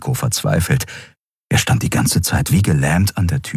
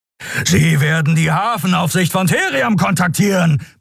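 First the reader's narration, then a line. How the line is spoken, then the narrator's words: Roaring. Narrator (German): brüllte Keru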